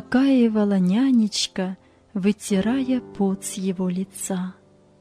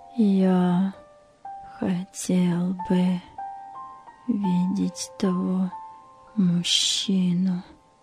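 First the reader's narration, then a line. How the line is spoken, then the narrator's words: Whisper. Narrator (Russian): прошептал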